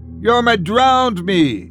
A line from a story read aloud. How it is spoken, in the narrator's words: Sarah shouted